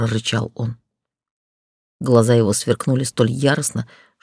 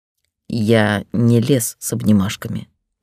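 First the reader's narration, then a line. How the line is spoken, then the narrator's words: Through gritted teeth. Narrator (Russian): процедил Рихт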